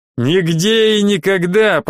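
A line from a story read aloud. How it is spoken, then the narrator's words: Booming from behind. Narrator (Russian): прогремело сзади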